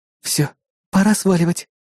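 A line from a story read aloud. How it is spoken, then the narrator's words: Soft whisper. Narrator (Russian): тихо прошептала напарница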